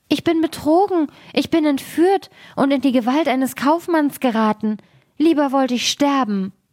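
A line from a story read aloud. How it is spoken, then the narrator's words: Frightened cry. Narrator (German): rief sie erschrocken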